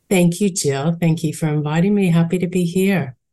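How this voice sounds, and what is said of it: Australian accent. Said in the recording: “Aussie accent”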